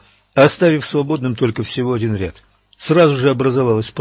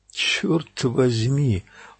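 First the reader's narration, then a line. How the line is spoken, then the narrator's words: Breathless exhale. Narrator (Russian): выдохнул Энди Стоунтон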